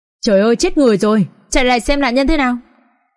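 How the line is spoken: Several passersby shouting. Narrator (Vietnamese): 3-4 tiếng hét của người đi đường cũng hét lên theo

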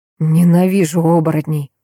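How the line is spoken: Tired exhale, vampire. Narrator (Russian): Устало выдохнул вампир

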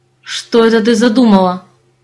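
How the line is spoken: Growl. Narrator (Russian): прорычал землянин

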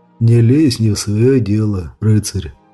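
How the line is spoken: Lazy grating voice, close behind. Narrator (Russian): Лениво проскрежетал он еще раз за ушами Дэниэль

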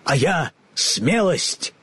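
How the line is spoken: Lion barking. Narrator (Russian): рявкнул трусливый лев

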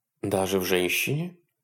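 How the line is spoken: Quiet question. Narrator (Russian): тихо спросила Хонор

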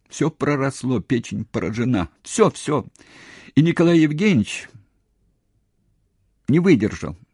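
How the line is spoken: Sobbing speech. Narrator (Russian): уже рыдая, говорила Нора

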